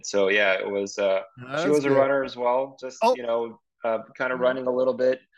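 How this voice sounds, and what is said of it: Speaks with a foreign accent. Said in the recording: “younger looking guys with accents ... I had my accent”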